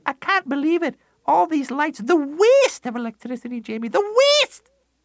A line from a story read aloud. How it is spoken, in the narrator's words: she'd scream